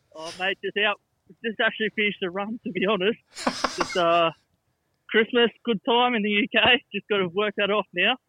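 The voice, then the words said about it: Out of breath after running. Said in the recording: “a bit out of breath.”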